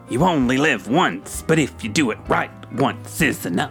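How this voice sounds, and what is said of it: Imitates another person's voice. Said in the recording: “I've got a first impression for you ... Was it Jack Nicholson? ... Of course, Cliff. My impression was so spot on.”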